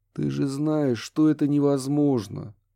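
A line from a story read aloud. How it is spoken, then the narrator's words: Pained exhale. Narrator (Russian): с болью выдохнул Курт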